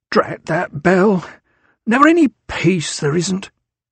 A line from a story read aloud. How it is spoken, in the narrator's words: Wheezing a little